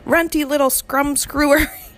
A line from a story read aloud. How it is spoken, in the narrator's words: he shouted